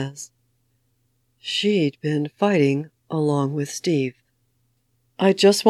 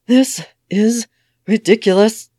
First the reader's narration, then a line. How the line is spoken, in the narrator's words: the widow wheezes